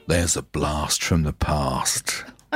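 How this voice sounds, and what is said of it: Radio DJ voice. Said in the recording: “You sound like Alan Freeman. ... putting on my finest DJ voice”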